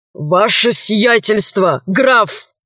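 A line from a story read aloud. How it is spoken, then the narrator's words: Hoarse wheeze. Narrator (Russian): прохрипел он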